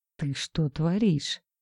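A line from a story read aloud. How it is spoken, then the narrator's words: Whisper. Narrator (Russian): прошептал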